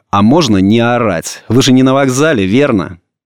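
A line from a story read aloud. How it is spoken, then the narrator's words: Angry question. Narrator (Russian): Софья Ивановна, сноха, спросила зло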